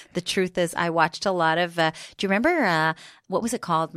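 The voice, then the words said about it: American accent. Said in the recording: “why do you have an American accent?”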